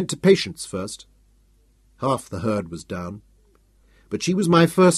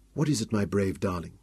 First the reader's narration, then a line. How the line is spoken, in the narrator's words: asked softly